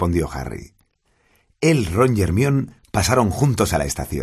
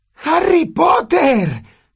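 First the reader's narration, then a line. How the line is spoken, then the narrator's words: Shrieked. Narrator (Spanish): chilló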